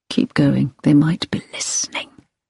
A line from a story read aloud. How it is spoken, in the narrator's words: him whisper